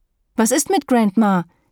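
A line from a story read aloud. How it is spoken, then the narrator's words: Shouted. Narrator (German): rief Daphne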